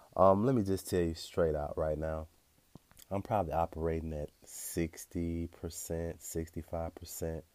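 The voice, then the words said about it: Stuffy congested voice. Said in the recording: “I'm less than 100% right now. I'm a little stuffy. I'm kind of sneezing intermittently.”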